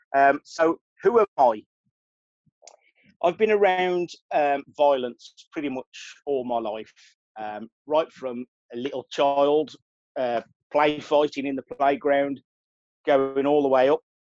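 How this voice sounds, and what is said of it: Rough Birmingham English accent. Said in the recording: “my accent. It's a very rough accent from the UK ... I'm from a place called Birmingham”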